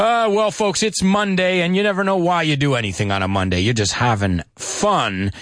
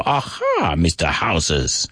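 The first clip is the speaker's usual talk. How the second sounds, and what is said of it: Put-on Chinese accent. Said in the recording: “I just changed to like a Chinese accent. That was weird.”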